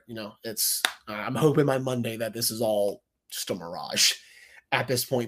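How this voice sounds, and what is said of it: Congested, stuffy-nosed voice. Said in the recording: “apologize for my voice ... Yes, I am congested. I have the cold still ... My nose is not as stuffy”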